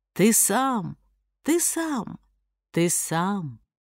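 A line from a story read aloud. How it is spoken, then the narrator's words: Quiet forest reply. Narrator (Russian): Тихонько отозвался лес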